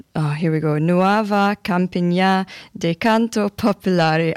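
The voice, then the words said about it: Put-on Scottish accent. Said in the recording (Danish): “I love my Scottish accent right now.”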